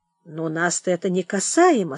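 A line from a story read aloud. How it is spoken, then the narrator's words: Calm reply. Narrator (Russian): спокойно ответил Михей Зотыч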